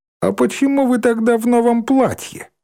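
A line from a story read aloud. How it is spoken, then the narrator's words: Question, then self-pleased laugh. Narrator (Russian): спросил Васильев и засмеялся от собственной догадливости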